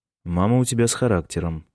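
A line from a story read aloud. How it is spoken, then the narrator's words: Wry snort. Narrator (Russian): хмыкнул Майкл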